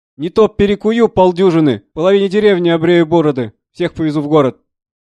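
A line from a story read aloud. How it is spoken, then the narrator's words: Loud distressed shouting. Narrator (Russian): Брат Василий кричал пуще других, потому что на нашу семью выпадал рекрут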